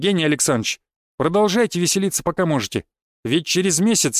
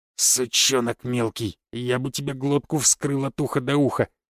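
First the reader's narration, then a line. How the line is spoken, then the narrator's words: Hissing scarred guard. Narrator (Russian): прошипел гвардеец с лицом, покрытым шрамами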